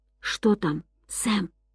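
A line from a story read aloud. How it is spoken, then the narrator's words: Whisper. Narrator (Russian): прошептал он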